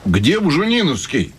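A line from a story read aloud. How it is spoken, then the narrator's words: Shouting. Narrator (Russian): кричал кто-то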